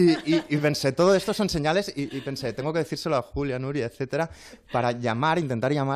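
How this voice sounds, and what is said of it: Usual voice. Nothing is said of it.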